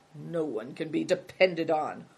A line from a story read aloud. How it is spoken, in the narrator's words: muttering